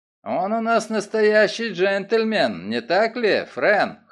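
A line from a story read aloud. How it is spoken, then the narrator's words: Amused snort. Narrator (Russian): хмыкнул Оллер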